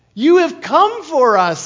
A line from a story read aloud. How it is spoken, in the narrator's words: shouted